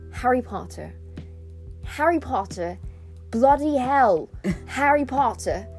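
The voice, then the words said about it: Put-on British accent. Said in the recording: “my British accent ... work myself up to really nail it ... gets me into character”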